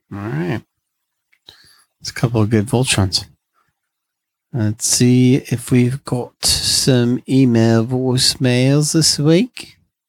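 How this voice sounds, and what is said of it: Put-on accent. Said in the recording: “Don't know why I'm talking in an accent.”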